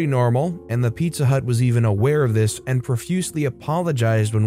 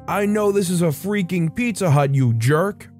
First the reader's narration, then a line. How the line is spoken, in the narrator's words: We would have drunk people call back 4 or 5 times and then begin screaming into the phone